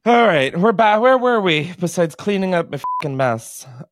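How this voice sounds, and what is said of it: Breathless, out-of-breath speech. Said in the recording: “I'm out of breath”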